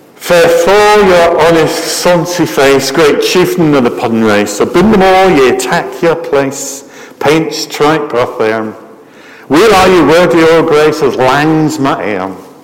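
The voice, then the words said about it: Scottish accent reciting Scots verse. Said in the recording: “Much better Scottish accent than I've got.”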